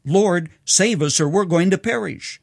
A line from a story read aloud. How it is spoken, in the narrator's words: Fearing that the fishing boat on stormy Galilee would sink, Peter cried out